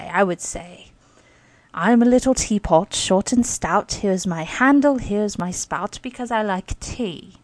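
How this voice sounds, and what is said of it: Dodgy put-on British accent. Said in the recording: “not quite up to par, as they would say, like the Queen's English ... did a British accent”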